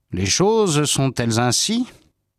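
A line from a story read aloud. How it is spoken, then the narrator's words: Plain. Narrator (French): Il répondit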